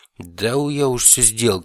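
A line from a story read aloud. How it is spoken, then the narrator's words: Snort. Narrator (Russian): хмыкнул Гром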